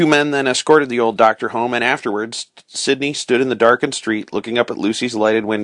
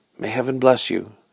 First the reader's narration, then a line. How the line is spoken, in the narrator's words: whispered